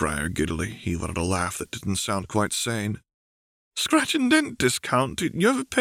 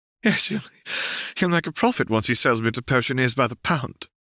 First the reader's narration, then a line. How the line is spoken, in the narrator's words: laughed Briar